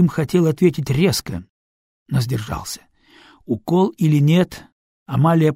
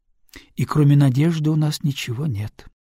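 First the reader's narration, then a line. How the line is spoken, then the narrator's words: Sighing woman. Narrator (Russian): вздохнула женщина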